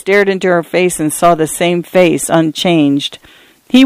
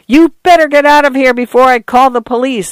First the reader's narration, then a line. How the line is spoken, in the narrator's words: Arthur yelled